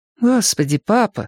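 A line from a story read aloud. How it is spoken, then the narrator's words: Sigh. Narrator (Russian): вздохнула я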